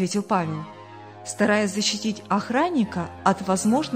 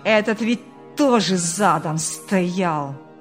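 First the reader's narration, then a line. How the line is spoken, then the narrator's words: Angry growl. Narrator (Russian): Буквально прорычал в злобе Ильяс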